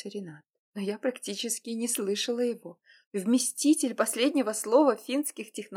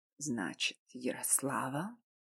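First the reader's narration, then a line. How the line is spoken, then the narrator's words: Quiet male whisper. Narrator (Russian): Тихим шепотом произнес мужчина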